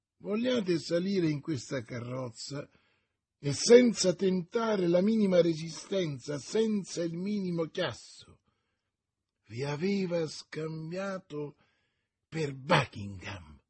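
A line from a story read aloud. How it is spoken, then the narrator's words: Exclaimed. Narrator (Italian): esclamò D'Artagnan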